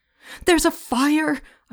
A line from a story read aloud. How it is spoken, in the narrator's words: screamed